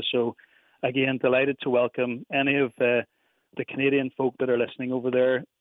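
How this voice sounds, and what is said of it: Belfast Northern Irish accent. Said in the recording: “Irish Whiskey in Belfast. That accent that just takes me home to the old country”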